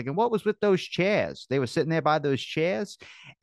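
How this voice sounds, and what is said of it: Poor imitation of another person's accent. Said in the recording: “that's my horrible Kennedy accent, but our impression”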